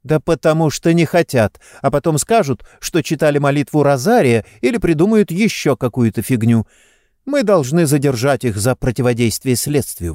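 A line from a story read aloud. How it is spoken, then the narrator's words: Exclaimed. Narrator (Russian): воскликнула Сестера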